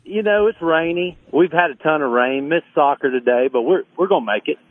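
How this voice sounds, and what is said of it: Southern American accent. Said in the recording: “I love your accent ... it's Southern charm ... He's got that accent as well”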